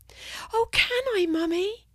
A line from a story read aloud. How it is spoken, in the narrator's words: asked Autumn, pleadingly